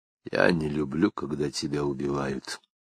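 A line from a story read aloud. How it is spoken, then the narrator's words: Quiet speech. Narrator (Russian): негромко произнес Лапшин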